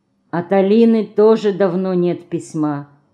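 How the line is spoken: Sighing. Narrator (Russian): снова вздохнула Мышка

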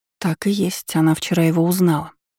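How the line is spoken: Muttering. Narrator (Russian): пробормотала я

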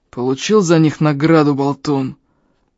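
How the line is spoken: Hoarse wheeze. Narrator (Russian): прохрипел он

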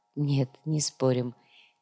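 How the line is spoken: Soft. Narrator (Russian): мягко произнесла Яна

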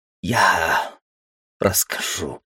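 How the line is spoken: Wheezing female voice. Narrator (Russian): просипела она

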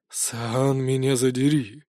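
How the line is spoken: Awed muttering. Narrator (Russian): пробормотал проникшийся увиденным до печенок оборотень

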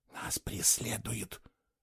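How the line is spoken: Barely audible whisper. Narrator (Russian): еле слышно шепнула она Фло

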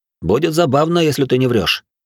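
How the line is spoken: Smirking. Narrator (Russian): с усмешкой сказал он

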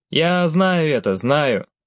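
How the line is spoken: Laughing. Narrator (Russian): смеялся Биг Блэк

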